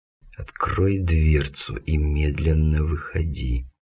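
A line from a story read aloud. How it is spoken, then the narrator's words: Hissing whispered command. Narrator (Russian): свистящим шепотом командую я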